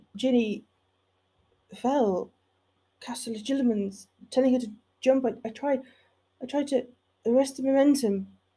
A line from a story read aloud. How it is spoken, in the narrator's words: He couldn't find the right words, managing only to stutter out